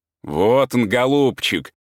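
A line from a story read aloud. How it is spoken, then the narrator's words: Cheerful, laughing. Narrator (Russian): заметил Павел Петрович и с веселым хохотом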